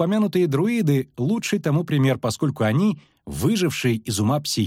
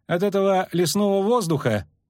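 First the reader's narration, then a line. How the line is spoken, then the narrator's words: Mocking, curt. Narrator (Russian): насмешливо бросил Лютик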